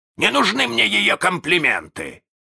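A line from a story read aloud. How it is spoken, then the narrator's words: Hurt bark. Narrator (Russian): рявкнул с обидой Крюк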